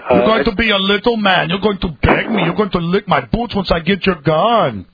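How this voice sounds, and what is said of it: Arnold Schwarzenegger impression. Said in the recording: “did a tremendous Arnold impression. ... I don't think I did a very good one.”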